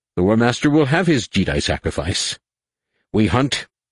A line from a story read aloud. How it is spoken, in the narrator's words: he snapped at the crew